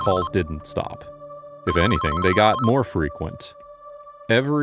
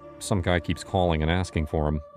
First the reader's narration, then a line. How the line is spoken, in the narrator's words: I mumbled